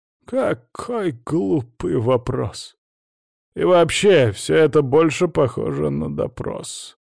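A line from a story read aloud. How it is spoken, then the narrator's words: Displeased grumbling. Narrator (Russian): недовольно проворчал Яковлев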